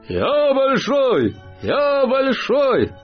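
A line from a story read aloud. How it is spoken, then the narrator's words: Many voices shouting together. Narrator (Russian): Они разом все закричали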